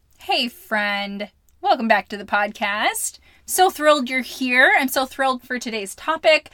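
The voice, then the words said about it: Slightly hoarse voice. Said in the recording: “my voice is a little bit hoarse ... I'm a little hoarse”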